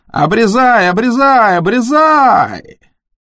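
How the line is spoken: Drunken yelling. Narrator (Russian): Она орала, как пьяная

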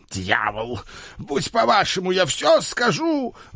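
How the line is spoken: Old man's despairing howl. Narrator (Russian): взвыл старый барон, в отчаянии

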